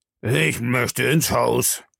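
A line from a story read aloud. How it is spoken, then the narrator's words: Man grumbling. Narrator (German): brummte er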